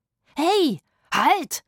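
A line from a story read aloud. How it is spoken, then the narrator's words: Shouting. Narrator (German): schrie Rufus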